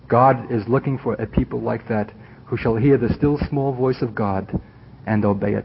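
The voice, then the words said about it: Jewish Brooklyn accent. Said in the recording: “this Jewish Brooklyn accent”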